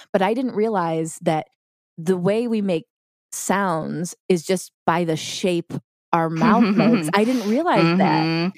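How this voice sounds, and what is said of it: Voice slightly off from illness. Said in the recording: “I'm sick right now, so my voice sounds a little bit off”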